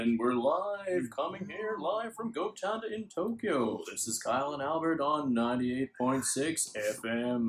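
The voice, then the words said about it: Mock radio announcer voice. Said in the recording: “radio voice”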